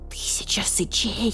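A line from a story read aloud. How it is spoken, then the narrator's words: Hissed. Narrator (Russian): прошипел барсукот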